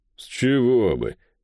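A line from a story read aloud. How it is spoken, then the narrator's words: Grumbling. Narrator (Russian): проворчал Дейт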